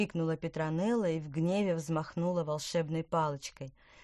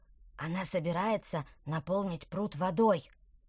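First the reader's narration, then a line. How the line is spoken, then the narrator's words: Whispered. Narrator (Russian): прошептал тыквер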